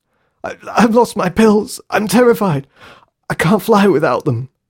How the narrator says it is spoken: sobbed again, still clutching his chest

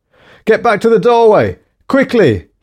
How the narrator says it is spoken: he yelled

